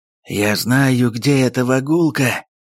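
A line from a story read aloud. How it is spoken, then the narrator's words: Hoarse wheeze. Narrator (Russian): прохрипел татарин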